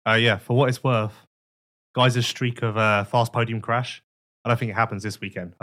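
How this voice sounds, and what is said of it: Ill, deeper voice with cough. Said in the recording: “this coughing isn't going to go away. I'm still ill, but my voice is deeper”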